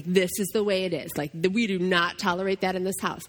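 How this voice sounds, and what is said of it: Strong, stern mom voice. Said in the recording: “when I'm like coming on strong, my kids call it my mom voice”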